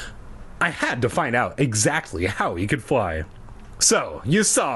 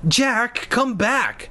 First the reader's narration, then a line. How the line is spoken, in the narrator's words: Mia cried